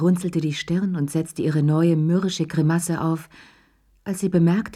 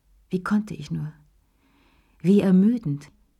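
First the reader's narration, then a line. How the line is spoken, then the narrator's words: Sighing. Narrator (German): seufzte sie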